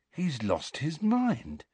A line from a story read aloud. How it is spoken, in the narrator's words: said Ron in an almost awed voice